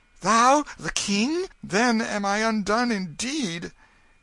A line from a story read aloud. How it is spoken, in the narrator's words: he exclaimed